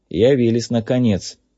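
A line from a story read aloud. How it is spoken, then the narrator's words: Grumble. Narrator (Russian): проворчал Кей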